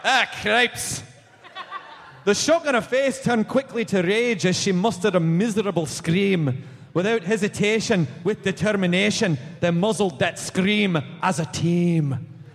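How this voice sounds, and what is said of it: Scottish accent reading aloud. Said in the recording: “Read it to the children in a Scottish accent.”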